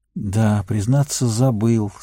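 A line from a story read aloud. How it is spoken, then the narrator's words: Upset sigh. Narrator (Russian): Сэм огорченно вздохнул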